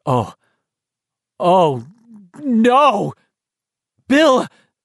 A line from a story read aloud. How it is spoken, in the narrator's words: Beverly cried, alarmed